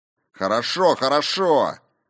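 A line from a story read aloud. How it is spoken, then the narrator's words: Barking over noise. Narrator (Russian): гаркнул он, перекрывая шум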